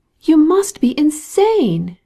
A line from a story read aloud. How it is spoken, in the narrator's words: she exclaimed, red with vexation